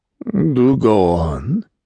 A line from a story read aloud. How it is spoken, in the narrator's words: said smoothly